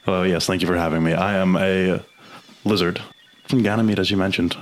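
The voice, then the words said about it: Lizard-like character voice. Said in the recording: “You sound like a lizard.”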